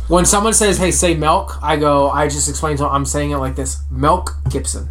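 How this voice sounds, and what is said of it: Distinct regional American accent. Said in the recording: “He says it with an E. ... your accent is completely different than ours”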